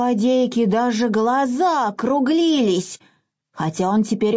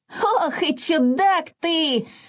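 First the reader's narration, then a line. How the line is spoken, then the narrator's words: Loud laughter. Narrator (Russian): захохотал Изюмка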